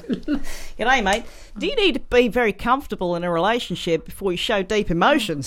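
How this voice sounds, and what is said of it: Exaggerated put-on Australian accent. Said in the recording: “I was going to do Australian for the next one ... All I can hear is a crazy Australian”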